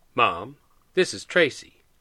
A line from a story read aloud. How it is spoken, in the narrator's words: Pete said